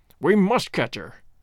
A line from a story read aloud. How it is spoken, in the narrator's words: cried Holmes, between his teeth